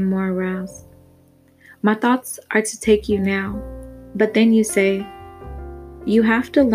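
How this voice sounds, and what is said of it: Usual voice. Nothing is said of it.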